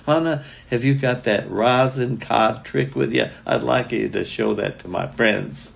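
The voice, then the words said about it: Southern accent. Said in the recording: “He had that southern accent.”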